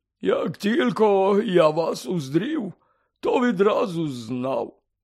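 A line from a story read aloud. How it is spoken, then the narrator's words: Strangely hoarse voice. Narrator (Ukrainian): сказав дивно захриплим голосом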